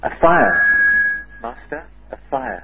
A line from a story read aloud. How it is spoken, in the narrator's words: rushed into Tokay's room shouting